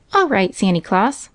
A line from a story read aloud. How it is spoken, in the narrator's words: cried Johnny